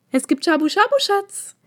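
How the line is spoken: Shrill call. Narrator (German): rief sie auf ihre übliche, ein wenig zu schrille Art und Weise

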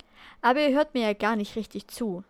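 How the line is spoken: Sighing. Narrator (German): seufzte er

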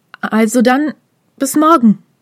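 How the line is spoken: Called uncertainly over shoulder. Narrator (German): rief er Mizuki noch etwas unsicher über die Schulter zu

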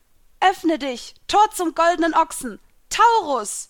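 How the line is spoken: Calling out. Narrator (German): rief ich

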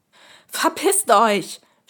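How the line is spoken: Scream. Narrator (German): schrie ich

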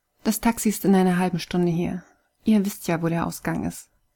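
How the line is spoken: Cold. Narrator (German): sagte Kai kalt

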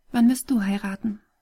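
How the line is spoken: Gentle question. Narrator (German): fragte sie ihn sanft

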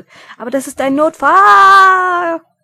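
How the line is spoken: Shouting back. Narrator (German): schrie er zurück

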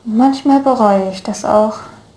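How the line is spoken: Theatrical sigh. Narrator (German): seufzte Law theatralisch

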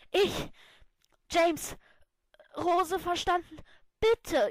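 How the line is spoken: Breathless gasping. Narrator (German): japste atemlos

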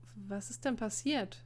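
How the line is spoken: Hesitant question. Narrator (German): fragte Emil zögernd

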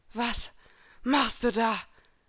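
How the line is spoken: Breathless question. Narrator (German): fragte keuchend

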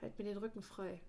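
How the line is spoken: Murmured. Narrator (German): murmelte er

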